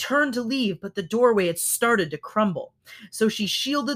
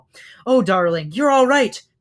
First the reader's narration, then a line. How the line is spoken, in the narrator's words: cried the mother hare